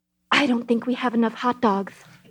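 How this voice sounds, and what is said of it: Impression of Julianne Moore. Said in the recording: “I can do a little impression ... Julianne Moore”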